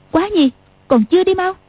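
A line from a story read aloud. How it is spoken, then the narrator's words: Sharp shout. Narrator (Vietnamese): Tiểu Long Nữ quát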